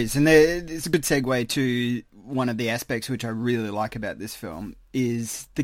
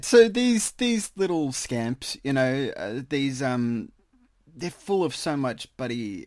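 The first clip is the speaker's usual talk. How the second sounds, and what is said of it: Bad put-on New York accent. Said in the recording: “my impersonation ... Your New York accent is horrible. It sounds like a frog dying. It is the worst.”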